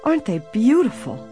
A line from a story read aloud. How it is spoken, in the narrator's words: Emily exclaimed